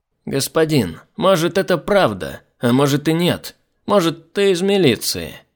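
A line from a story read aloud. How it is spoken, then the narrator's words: Mocking tone. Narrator (Russian): главный Гаруда продолжал тем же насмешливым тоном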